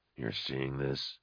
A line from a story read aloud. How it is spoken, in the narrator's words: Nail murmured